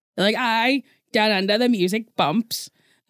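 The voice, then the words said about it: Bad put-on Australian accent. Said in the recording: “That was a bad Australian accent.”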